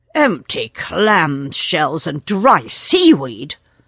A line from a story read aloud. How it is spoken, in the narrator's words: snorted Seacatch